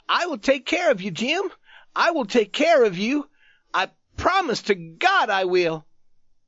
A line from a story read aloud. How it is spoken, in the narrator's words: The youth cried out to him excitedly